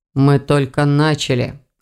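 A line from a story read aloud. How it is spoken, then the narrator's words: Snorted. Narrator (Russian): хмыкнул Эверетт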